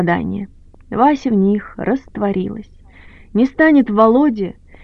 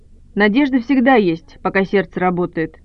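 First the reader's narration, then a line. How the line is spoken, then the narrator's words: Displeased, dismissive tone. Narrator (Russian): кидает доктор недовольным тоном, будто Вася глупости спрашивает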